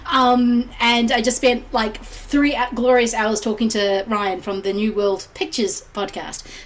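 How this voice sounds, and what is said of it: Croaky, crackly hoarse voice. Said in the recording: “croaky my voice is ... my voice may seem a little bit crackly”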